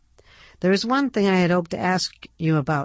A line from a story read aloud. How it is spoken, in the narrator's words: Ned said, his voice clear and hopeful